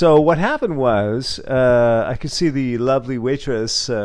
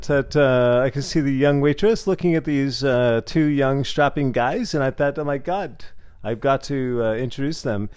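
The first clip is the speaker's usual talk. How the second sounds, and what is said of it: Put-on French accent. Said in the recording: “let me give you a little French accent as I grow into my French accent.”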